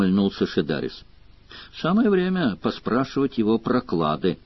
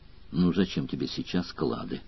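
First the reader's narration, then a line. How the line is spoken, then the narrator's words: Gentle question. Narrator (Russian): ласково спросила Мара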